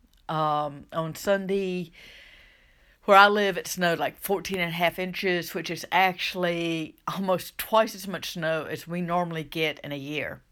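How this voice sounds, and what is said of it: Southern US accent. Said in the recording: “if you haven't guessed by my voice yet, by my accent, I live in the southern United States”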